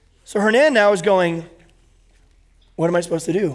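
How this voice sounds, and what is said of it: Usual voice. Nothing is said of it.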